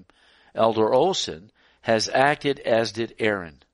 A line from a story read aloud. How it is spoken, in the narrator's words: Ellen White to exclaim